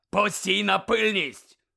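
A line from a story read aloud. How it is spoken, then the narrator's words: Barked. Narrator (Ukrainian): гаркнув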